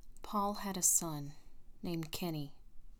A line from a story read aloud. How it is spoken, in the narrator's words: he murmured, his eyes dampening